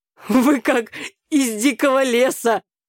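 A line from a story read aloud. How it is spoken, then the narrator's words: Father laughing. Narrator (Russian): рассмеялся папа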